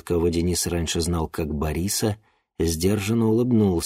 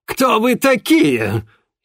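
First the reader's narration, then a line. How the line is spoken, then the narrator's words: Astonished exclamation. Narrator (Russian): изумленно воскликнул Хорн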